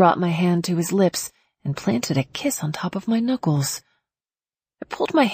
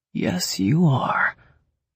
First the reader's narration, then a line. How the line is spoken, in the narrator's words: he said, his voice low